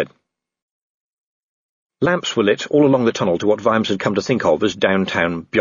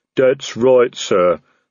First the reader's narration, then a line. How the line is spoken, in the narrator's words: the troll rumbled